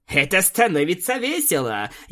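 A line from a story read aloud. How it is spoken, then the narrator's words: Laughing harder. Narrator (Russian): еще больше рассмеялась Аланис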